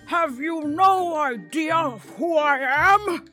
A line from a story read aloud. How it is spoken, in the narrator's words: barked